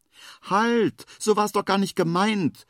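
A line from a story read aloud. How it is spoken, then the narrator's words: Hedgehog calling after someone. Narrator (German): ruft der Igel ihm hinterher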